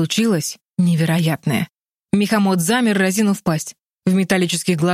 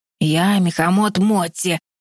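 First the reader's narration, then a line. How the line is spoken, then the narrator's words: Hoarse beast voice. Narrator (Russian): произнес зверь хриплым голосом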